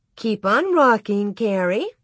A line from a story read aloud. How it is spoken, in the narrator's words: Miss Wilder said sweetly